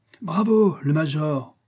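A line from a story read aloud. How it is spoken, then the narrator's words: Exclaimed. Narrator (French): s'écria le jugeur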